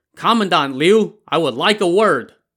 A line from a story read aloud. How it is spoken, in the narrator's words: he shouted